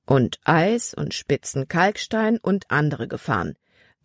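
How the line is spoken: Plain. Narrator (German): antwortete der Kapitän

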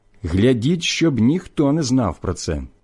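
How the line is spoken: Stern command. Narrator (Ukrainian): Ісус же суворо наказав їм

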